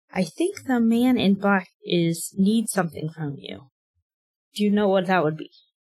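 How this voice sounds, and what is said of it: Soft voice. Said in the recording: “speak to Evan in a soft voice.”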